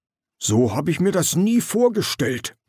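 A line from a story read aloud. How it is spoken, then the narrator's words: Hissed. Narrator (German): zischte Knaller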